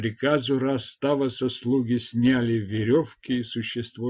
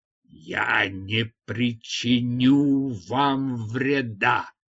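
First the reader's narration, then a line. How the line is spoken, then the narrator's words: Strained, forced out, monkey. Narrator (Russian): Обезьяна с колоссальными трудностями выдавила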